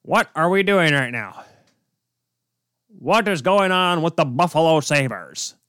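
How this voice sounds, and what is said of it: Imitates another person's voice. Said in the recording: “I can't do a real good Rick Jeanneret right now. ... That's my best Rick Jeanneret impression. I'm sorry. I'm not the best at him.”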